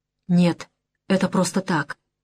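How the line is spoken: Quiet, wary. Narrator (Russian): Человек вздрогнул, настороженно прислушиваясь, тихо сказал

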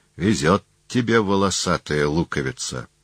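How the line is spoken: Plain. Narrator (Russian): сказал его партнер

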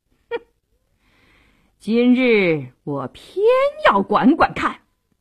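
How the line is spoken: Defiant sneer. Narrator (Chinese): 杜世清一点也不示弱，冷笑一声

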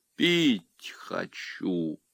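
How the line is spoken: Muttered. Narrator (Russian): пробормотал Вадим

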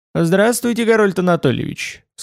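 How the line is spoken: Cheerful. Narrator (Russian): сказал бодро

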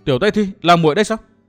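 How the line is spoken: Startled exclamation. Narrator (Vietnamese): Thạch Kiếm Cửu sửng sốt cả người, bật kêu lên

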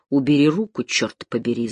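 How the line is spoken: Hissing. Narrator (Russian): зашипел Дани золотце

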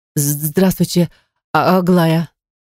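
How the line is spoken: Awed stammer. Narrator (Russian): начинает заикаться моя подруга, видимо, впечатлившись интерьером комнаты

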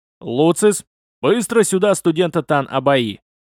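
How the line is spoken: Shouted. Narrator (Russian): крикнул ректор

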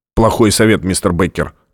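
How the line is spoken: Snapped. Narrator (Russian): огрызнулся Джабба

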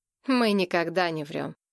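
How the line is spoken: Flat impassive tone. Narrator (Russian): сказал Кимыч своим прежним бесстрастным тоном

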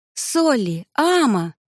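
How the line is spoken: Joyful. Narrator (Russian): Обрадовалась я

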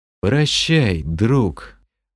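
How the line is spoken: Muffled, hollow voice. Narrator (Russian): глухо произнес я

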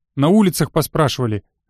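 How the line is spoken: Sharp interjection. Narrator (Russian): резко вставила Юля

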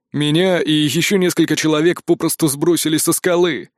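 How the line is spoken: Gloomy voice. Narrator (Russian): все тем же мрачным голосом пояснил Древень

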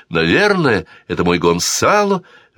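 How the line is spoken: Exclaimed. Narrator (Russian): воскликнула

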